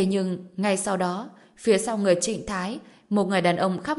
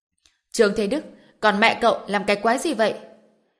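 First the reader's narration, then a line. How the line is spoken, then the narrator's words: Furious roar. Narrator (Vietnamese): Mạnh Nguyên Long phẫn nộ gào lên một tiếng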